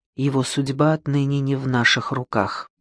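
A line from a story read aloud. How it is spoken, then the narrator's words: Quiet. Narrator (Russian): Инаба тихо сказала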